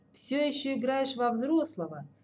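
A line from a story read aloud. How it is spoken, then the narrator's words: Sad smirk. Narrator (Russian): печально усмехнулся Ворожцов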